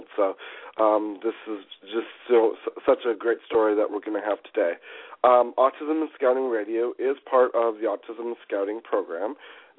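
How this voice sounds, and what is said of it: Slightly congested, under-the-weather voice. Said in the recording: “I feel a little bit under the weather. I have a little bit of a cold”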